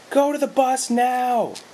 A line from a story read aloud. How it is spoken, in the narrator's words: Brenda screamed